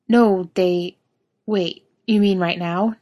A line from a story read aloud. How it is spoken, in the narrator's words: Jensen asks